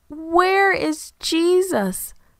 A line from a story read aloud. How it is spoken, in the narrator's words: Mary wailed